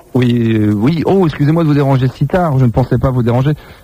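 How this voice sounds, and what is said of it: Imitates another person's voice. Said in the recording (French): “vais prendre la voix de Marie”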